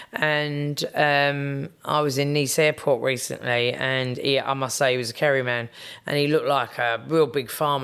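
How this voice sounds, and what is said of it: English accent. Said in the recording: “obviously my accent is English ... you've got an English accent”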